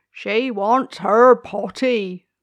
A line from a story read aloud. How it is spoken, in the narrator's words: cried the gardener